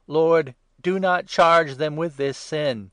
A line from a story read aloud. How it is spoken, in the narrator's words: he called out loudly